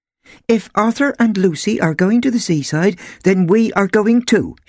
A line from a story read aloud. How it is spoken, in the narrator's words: she said, firmly